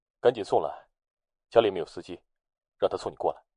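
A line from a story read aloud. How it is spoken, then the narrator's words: Cold, urging man. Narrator (Chinese): 男人 冷声催促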